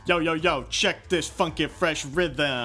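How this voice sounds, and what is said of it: Exaggerated tough-guy street voice. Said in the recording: “You don't need to talk like a mook.”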